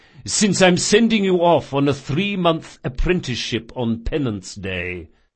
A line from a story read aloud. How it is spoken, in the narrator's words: said Chains, chuckling